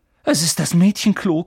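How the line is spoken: Panting. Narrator (German): keuchte Harry

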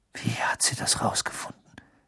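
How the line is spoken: Whisper. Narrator (German): wisperte er

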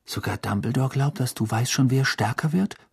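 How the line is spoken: Whispered. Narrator (German): flüsterte Ron

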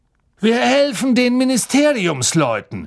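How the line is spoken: Calling out. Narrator (German): rief Mr

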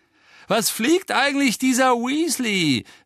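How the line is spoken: Contemptuous call. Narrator (German): rief Malfoy verächtlich

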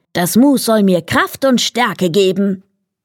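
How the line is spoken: Called out. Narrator (German): rief

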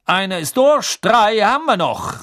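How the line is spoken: Calling out. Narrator (German): rief Bergmann

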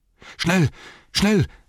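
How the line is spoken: Called out, panting. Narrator (German): rief er keuchend

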